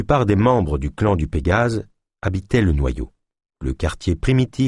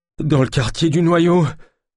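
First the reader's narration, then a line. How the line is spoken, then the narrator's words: Moaned. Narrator (French): gémit Jacquenot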